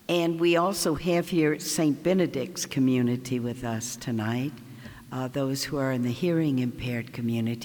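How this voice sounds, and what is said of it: Southern American accent. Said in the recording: “I'm from the South, as maybe y'all can tell ... a Southern accent”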